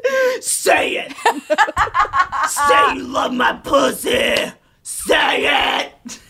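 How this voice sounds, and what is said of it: Imitates another person's voice. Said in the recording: “That's a really good impression. ... That is not a good impression.”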